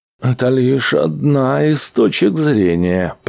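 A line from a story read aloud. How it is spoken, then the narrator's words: Muttered. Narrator (Russian): пробормотал Лорен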